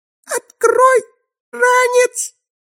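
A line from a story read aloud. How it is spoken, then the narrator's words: Hoarse wheeze. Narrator (Russian): прохрипела она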